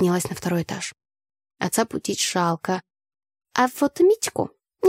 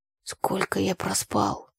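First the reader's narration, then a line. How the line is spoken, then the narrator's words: Mumbling, brother. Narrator (Russian): пробормотал брат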